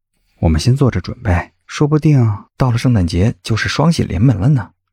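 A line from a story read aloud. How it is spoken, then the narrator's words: Low and gentle. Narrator (Chinese): 谢景亭低声轻缓的说道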